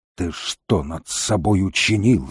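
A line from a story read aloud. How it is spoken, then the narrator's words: Growl. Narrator (Russian): зарычал Волкодав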